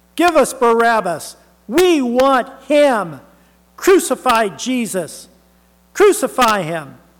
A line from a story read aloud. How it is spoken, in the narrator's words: the same people are shouting